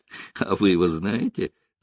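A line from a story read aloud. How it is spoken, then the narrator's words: Laughing. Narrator (Russian): засмеялся Рокоссовский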